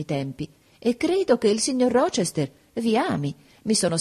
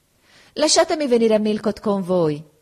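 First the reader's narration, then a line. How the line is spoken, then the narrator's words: Exclaiming. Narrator (Italian): esclamò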